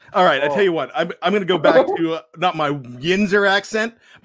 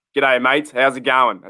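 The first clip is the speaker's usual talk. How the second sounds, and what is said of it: Improved put-on Australian accent. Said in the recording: “That's all you need for the Australian ... That's heaps better. That's 10 times better.”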